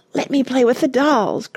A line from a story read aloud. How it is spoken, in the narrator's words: cried the so-called Babs, dancing with excitement